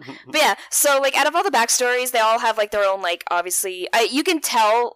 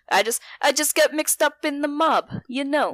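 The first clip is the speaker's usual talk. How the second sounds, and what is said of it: Mobster character voice. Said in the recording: “my good mob impression.”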